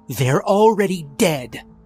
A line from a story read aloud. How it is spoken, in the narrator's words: Meehan snapped